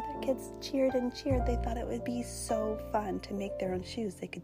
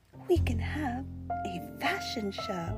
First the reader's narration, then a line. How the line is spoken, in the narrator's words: she gasped